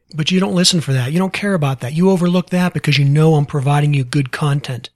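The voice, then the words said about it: Western Pennsylvania accent. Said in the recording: “I stammer at my words. I repeat things. I have a Western Pennsylvania coal mine accent that half of you can't understand every couple words I say.”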